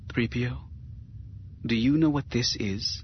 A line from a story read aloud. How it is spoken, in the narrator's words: the senator said softly